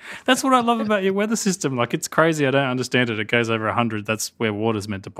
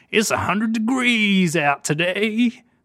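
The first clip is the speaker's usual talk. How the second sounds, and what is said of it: Put-on American accent. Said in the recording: “That's my American accent, by the way.”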